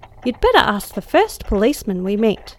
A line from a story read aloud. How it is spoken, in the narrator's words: cried I, with the foreboding fear heavier than before